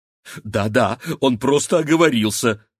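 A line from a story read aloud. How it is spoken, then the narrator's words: Frightened interjection. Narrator (Russian): испуганно вставила Рогнеда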